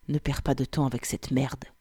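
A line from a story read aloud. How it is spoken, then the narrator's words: Soft but forceful. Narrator (French): déclara-t-il doucement mais avec une force inattendue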